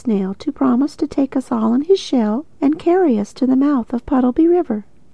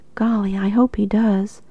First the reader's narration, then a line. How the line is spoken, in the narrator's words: sighed Jip